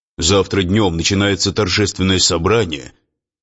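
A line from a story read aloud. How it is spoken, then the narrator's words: Offended deep voice. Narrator (Russian): обиженно басил он Марии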